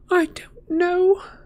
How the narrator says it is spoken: said Hermione miserably

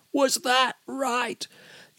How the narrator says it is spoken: shouting

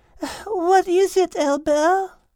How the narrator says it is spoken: Liz asked sleepily, yawning

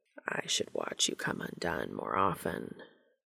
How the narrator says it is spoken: Cass murmured, his voice rougher than ever

